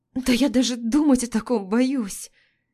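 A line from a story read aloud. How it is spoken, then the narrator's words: Hoarse croaking cry. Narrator (Russian): Пытаюсь воскликнуть это, но выходит какой-то хриплый вскрик полумертвой чайки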